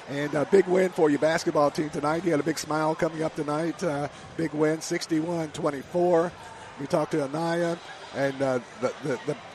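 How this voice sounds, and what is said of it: Strained voice, nearly losing it. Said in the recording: “I'm about to lose my voice.”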